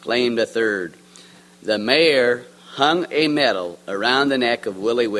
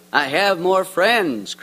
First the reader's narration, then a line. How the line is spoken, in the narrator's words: cried